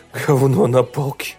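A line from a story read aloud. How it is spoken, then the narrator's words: Mutter. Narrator (Russian): пробормотал он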